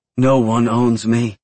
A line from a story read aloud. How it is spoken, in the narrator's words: she pants out